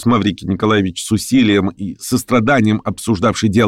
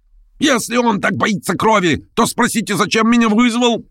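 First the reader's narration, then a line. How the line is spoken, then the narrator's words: Yelling. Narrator (Russian): вопил Гаганов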